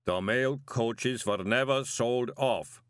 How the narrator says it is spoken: the golem rumbled

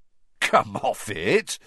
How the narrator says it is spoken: said Ron, starting to laugh

